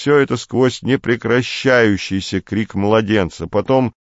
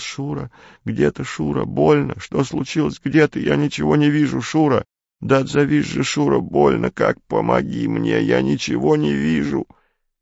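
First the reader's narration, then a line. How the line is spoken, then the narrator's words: Woman moaning in pain. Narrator (Russian): жути знакомый женский голос простонал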